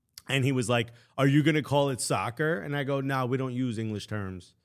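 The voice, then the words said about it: American accent. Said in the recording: “Cute American accent.”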